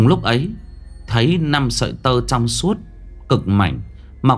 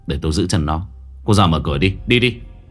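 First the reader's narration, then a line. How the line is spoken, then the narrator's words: Lowered voice. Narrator (Vietnamese): hạ giọng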